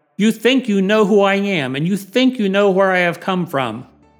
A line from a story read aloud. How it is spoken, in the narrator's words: You can hear his frustration when John says Jesus cried out